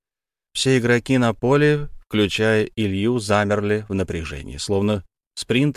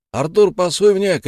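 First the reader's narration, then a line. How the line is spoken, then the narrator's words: Shouted. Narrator (Russian): крикнул Илья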